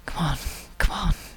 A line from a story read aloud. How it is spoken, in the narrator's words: pants